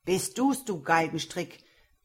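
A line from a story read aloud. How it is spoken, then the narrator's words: Angry old man shouting. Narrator (German): rief der alte Graf zornig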